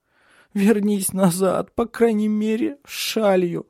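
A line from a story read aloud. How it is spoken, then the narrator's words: Sobbing. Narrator (Russian): обращалась она, всхлипывая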